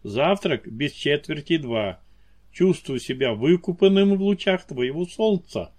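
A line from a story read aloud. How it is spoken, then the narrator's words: Amused snort. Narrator (Russian): хмыкнул Фаэтон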